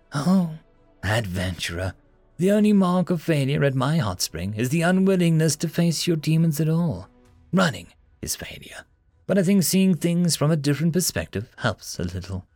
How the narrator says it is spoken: Luna said smoothly

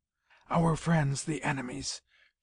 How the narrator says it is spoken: whispered

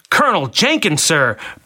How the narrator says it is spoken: barked a Marine twice his age

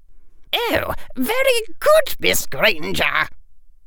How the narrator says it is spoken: squeaked Phileas Flitwick, their charms professor

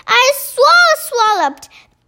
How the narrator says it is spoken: bellowed the Bone Cruncher

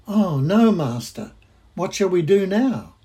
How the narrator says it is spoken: he cried out

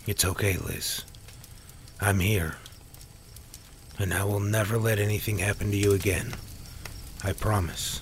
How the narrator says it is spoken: Sam said in a gentle, comforting tone

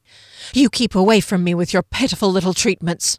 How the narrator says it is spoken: she snapped

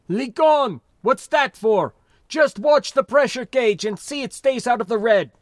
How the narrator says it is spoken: He swore and shouted

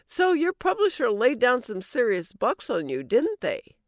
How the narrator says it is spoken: I almost laughed

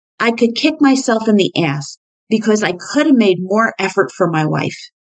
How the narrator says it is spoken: blurted out

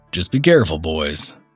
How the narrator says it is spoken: he said

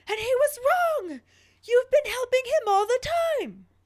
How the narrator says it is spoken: Caps Lock Harry shows back up screaming

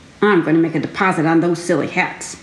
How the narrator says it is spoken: Bongo muttered

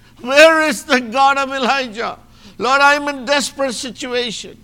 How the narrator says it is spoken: cried out to God and he said

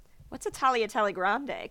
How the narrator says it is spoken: Colette asks

